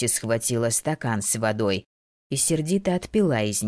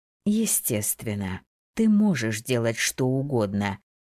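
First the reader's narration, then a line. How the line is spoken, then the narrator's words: Slow, agreeing. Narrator (Russian): медленно молвила Лейла, соглашаясь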